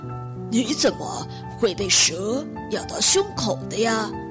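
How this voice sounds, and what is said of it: Soft, gentle old man's voice. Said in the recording (Chinese): “老爷爷用轻柔的声音说”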